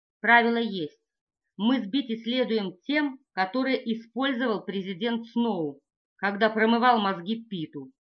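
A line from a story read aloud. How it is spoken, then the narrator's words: Plain. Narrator (Russian): говорит Гейл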